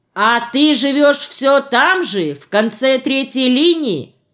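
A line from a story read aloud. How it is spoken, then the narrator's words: Shout. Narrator (Russian): он крикнул ей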